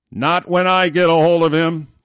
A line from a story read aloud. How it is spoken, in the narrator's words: the captain bellowed back